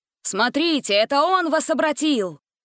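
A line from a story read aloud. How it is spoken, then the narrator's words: Shout. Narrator (Russian): крикнул он животным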